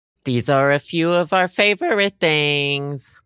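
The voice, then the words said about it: Voice cracks while singing. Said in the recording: “My voice cracked.”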